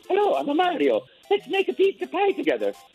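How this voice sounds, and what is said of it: Cheerful young Italian cartoon voice. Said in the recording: “Italian plumber from Brooklyn ... nice Italian guy, talk like this ... do that voice ... I'll make him younger”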